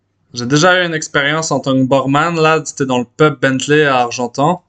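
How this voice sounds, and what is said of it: Québécois French accent. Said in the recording (French): “comment je parle avec mon accent québécois”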